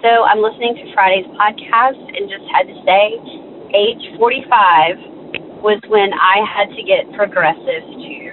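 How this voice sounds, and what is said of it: Weird, ill-sounding voice. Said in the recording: “Forgive my weird voice. I've been sick.”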